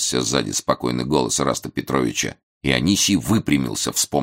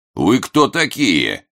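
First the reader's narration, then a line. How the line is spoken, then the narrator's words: Menacing question. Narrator (Russian): грозно спросил он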